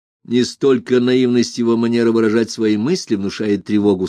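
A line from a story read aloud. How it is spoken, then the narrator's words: Plain. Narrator (Russian): сказал Сатамбрини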